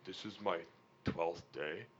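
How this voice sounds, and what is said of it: Imitates another person's voice. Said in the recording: “That's my good Brett. That's a good impersonation.”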